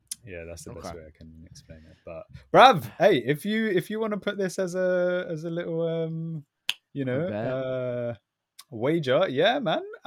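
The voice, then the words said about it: Mild London accent. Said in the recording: “mine's sort of like more London at the moment ... if you've watched Top Boy, yeah. Now my accent isn't that like deep, yeah, but is along the same sort of lines”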